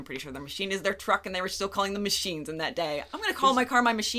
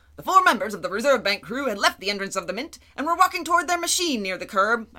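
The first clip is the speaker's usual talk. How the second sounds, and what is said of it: Old-timey newsreader voice. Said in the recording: “I'm gonna do old-timey news voice, or okay. Attempt to.”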